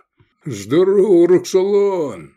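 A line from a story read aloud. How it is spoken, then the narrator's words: Deep booming, huge creature. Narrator (Russian): прогудел огромный широкий кресцент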